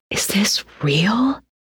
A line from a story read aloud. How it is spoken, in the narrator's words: Alex whispered again